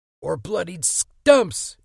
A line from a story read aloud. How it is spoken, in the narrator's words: Eddie screamed